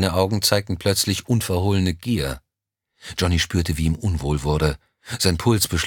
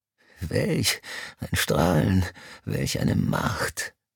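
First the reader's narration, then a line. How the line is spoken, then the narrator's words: Breathless gasping. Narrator (German): keuchte Mr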